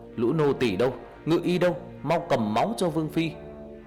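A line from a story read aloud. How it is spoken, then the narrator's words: Guard shouting loudly. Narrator (Vietnamese): Người cận vệ hét lớn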